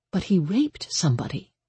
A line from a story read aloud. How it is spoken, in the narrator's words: Danny said quietly